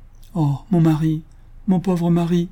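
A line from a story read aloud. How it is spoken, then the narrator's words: Widow's grief-stricken cry. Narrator (French): s'écria la veuve, dans l'excès de sa douleur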